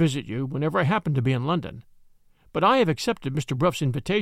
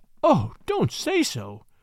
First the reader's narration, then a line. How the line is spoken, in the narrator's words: I pleaded